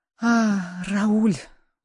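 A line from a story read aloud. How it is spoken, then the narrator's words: Frightened girl whispering. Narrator (Russian): прошептала девушка, боясь повернуться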